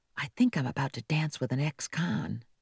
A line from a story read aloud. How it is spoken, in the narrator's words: she whispered to Connie